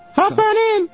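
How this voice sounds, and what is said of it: Imitation of a woman's voice. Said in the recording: “I'm imitating her voice.”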